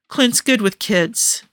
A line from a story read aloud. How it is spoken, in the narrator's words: Tony said, and his voice was rough with some emotion